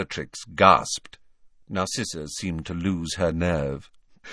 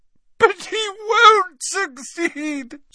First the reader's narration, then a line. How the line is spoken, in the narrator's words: sobbed Narcissa